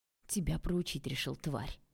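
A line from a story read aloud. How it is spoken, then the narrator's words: Hissed, young man. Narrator (Russian): прошипел парень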